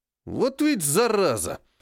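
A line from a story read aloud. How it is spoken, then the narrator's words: Angry exhale. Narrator (Russian): зло выдохнул Серый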